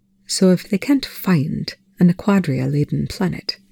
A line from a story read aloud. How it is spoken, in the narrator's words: Rush said, his tone suspiciously reasonable